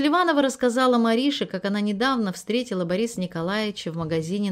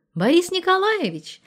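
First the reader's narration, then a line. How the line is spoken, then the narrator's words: Joyful question. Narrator (Russian): радостно спросила Мариша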